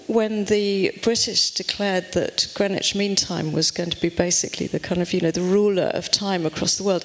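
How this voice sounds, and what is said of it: British accent. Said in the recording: “obviously you can tell from my accent that I come from over the pond”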